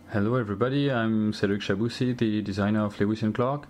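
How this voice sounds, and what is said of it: French-accented English. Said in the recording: “a French designer ... let's listen to his accent.”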